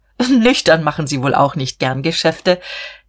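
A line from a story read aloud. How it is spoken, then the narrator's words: Laughing. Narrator (German): Herr Kienast lachte auch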